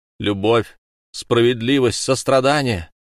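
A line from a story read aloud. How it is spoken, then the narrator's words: Laughing, screeching like eagles. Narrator (Russian): семь призраков хохотали, и голоса их были подобны крику тысяч морских орлов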